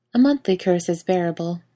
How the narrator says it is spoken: the princess said, her voice even

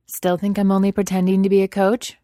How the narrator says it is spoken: Victor asks brightly

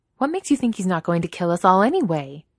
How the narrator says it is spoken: She snaps back

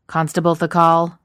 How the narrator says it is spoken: Thorin barks

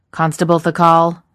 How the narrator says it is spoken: Thorin barks

